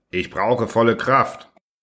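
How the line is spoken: Said, unchanged steady voice. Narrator (German): sagte zum dritten Mal mit unveränderter Stimme

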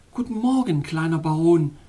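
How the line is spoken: Sweet call. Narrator (German): rief sie in ihrem süßesten Ton

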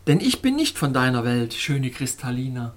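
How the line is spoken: Cheerful. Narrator (German): sagte fröhlich

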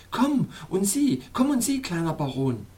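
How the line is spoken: Calling out. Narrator (German): rief Schneeblume

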